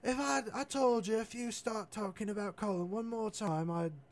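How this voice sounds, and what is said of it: Failed attempt at Irish accent. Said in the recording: “that's not an Irish accent, it's some other accent”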